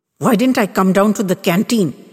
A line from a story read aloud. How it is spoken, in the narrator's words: wanted to know